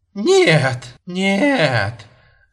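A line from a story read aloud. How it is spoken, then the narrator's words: Laughing. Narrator (Russian): Засмеялась она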